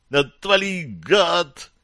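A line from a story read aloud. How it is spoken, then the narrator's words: Shrieking. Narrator (Russian): завизжал Бозл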